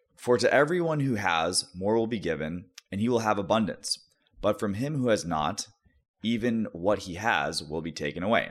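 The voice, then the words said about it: Solemn biblical scholar reading voice. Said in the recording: “I'm trying to put on my biblical scholar voice”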